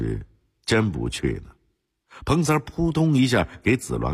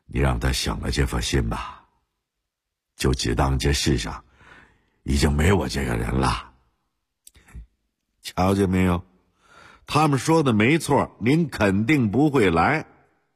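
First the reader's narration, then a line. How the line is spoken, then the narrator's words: Cold. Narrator (Chinese): 子鸾冷冷地说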